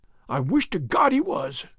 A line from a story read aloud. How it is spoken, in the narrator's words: he cried